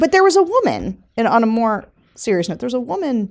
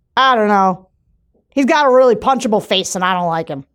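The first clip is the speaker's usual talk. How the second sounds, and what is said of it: Attempted New Hampshire accent. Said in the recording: “In his New Hampshire accent ... I can't do these accents”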